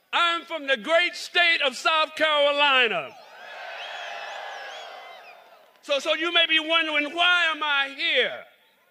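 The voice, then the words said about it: Southern drawl. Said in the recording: “I am not from New York, and you're going to hear that in my drawl”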